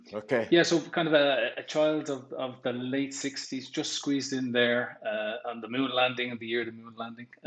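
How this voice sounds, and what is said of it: Dublin Irish accent. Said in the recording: “I'm trying to peg your accent. I'm guessing Dublin ... No, you're right.”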